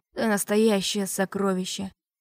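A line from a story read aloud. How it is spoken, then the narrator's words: Purring. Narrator (Russian): промурлыкал насильник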